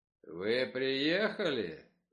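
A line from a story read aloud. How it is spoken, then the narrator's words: Deep bass voice. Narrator (Russian): пробасил Ковен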